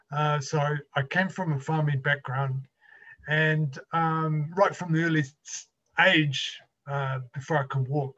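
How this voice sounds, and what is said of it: New Zealand accent. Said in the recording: “I've got a bit of an accent. So I'm from New Zealand”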